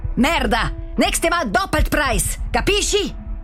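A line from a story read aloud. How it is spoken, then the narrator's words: Very loud shouting. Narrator (German): Er schreit jetzt so laut, dass man ihn auch draussen hört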